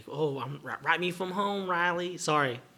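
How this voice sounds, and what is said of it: Put-on accent. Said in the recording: “That accent probably is accurate, but unnecessary.”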